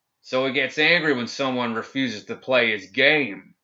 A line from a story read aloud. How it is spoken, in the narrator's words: he roared